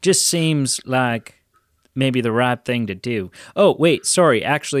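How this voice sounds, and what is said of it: Usual voice. Nothing is said of it.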